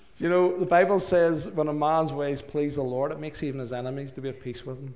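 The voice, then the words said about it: Northern Irish (Belfast) accent. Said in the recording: “he heard the accent ... East Belfast”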